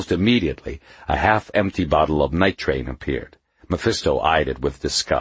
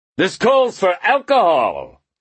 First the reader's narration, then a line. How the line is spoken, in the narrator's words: cried Mephisto